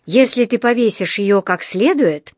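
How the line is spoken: Mumbled grumble. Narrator (Russian): пробурчал

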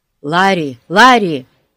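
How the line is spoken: Shouting. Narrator (Russian): закричал Пип

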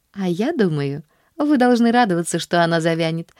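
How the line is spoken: Laughing girl. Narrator (Russian): засмеялась Поллианна

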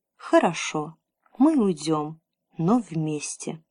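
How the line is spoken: Sad and quiet. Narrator (Russian): Лукас печально кивнул и тихо сказал

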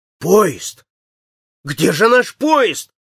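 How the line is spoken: Bewildered exclamation. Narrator (Russian): в недоумении воскликнул он

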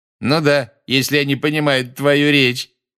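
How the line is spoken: Loud remark. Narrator (Russian): громко заметил Малфой

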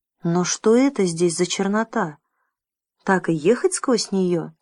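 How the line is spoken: Plain. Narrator (Russian): спросил Джим

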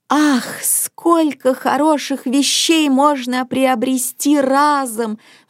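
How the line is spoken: Grandmother's sigh. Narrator (Russian): вздохнула бабушка

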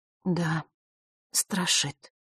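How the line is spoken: Quiet. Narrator (Russian): тихо произнесла Василиса

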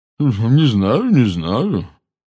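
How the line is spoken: Thick-voiced objection. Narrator (Russian): возразила мадам Боунс своим густым голосом

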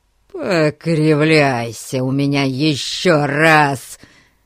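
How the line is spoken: Menacing, threatening. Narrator (Russian): Грозно сверкая глазами на Фати, он начал было

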